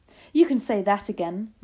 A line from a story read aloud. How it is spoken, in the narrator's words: my grandmother cried